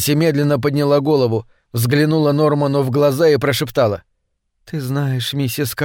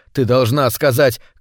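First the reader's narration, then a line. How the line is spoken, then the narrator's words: Shouted. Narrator (Russian): крикнул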